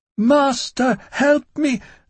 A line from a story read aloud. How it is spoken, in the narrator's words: all words giving way to one wailing cry